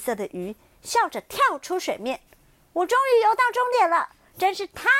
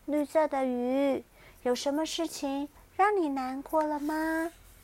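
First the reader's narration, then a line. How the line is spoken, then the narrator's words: Soft question. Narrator (Chinese): 小熊轻声的问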